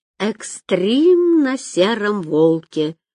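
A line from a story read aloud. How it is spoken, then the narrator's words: Drawn-out drawl. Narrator (Russian): протянул Виктор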